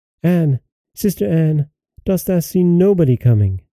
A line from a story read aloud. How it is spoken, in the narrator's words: said his wife, and then she cried out